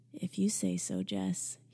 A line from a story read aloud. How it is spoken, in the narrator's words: he said softly